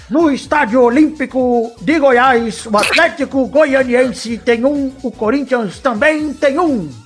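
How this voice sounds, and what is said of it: Imitates another person's voice. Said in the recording (Portuguese): “imitação de Léo Batista ... Vai ser ruim, hein? ... o jeito de falar eu tô pegando, eu preciso pegar o, o timbre”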